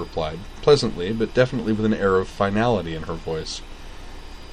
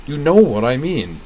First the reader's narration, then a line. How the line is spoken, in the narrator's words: Utena snapped